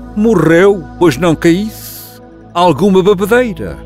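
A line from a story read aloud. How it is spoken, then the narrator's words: Bellowing. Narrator (Portuguese): berrar ao empreiteiro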